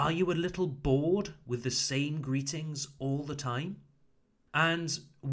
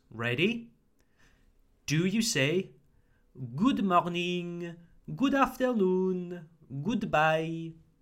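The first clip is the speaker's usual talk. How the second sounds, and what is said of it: Bad put-on French accent. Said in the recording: “do a bad impression of a French accent.”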